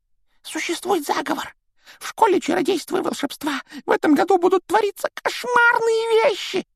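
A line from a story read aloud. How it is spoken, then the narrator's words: Whispered. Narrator (Russian): прошептал Добби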